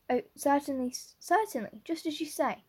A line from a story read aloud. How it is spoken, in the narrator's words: stammered unhappy Matthew